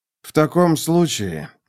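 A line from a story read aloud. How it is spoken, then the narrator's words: Gloomy. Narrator (Russian): мрачно сказал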